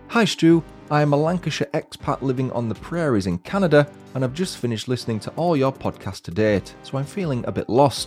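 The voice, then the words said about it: Northern English accent. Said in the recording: “Love hearing all the northern sayings and accent”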